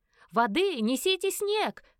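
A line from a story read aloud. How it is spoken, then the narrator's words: Shouting from all sides. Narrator (Russian): кричали со всех сторон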